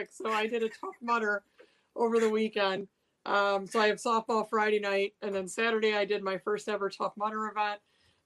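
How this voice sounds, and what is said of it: Strained, cracking worn-out voice. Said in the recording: “There goes my voice... So my voice is a little bit cashed today. So it kind of goes in and out. So I apologize if it cracks.”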